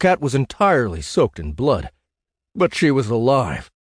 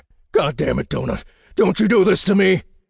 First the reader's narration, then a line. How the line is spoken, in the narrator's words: She gasped